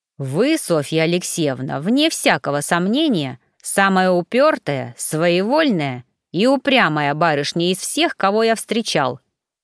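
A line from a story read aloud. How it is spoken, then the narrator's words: Growling. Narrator (Russian): прорычал пристав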